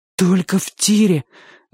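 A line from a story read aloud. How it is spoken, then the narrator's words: Breathless forced words. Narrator (Russian): выдавил Чик, застрявший в груди воздух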